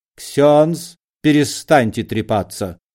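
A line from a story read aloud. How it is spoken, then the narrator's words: Stern. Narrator (Russian): строго сказал великий комбинатор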